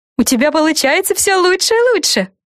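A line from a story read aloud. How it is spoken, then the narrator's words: Joyful praise. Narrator (Russian): радостно похвалила ее Гретель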